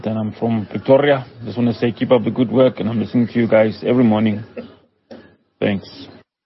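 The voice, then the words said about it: Speaks with a regional accent. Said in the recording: “You can probably hear by my Moy accent”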